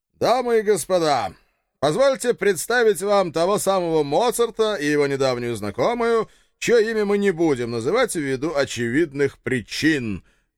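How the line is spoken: Loud announcement. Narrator (Russian): громко оповестил папочка

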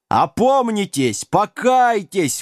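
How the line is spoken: Tireless yelling. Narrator (Russian): вопил отец Доминик без устали

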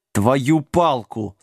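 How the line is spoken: Through gritted teeth. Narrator (Russian): сквозь зубы процедил Джек

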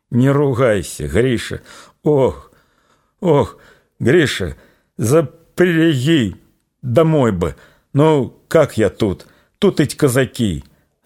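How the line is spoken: Groaning in intense pain. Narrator (Russian): застонала Аксинья, перехваченная железным обручем боли

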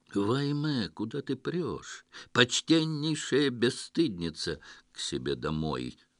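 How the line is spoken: Deep bass reply. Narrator (Russian): басом ответствовала ханум

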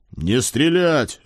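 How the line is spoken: Bark. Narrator (Russian): рявкнул я

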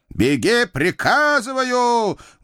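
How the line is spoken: Loud roar, Cossack general. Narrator (Russian): громко взревел казачий генерал

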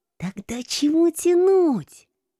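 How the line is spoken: Muffled hiss behind hand. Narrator (Russian): Прикрыв рот рукой, зашипела я

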